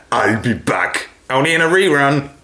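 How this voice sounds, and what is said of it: Poor Arnold Schwarzenegger impression. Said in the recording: “what would Arnie say? ... your impression ... Terrible.”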